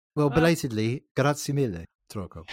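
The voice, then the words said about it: English speaker's poor Italian pronunciation. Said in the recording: “Please excuse my appalling accent ... English people.”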